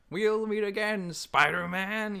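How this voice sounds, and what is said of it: Bad Green Goblin impression. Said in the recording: “my horrible impression ... how bad it was”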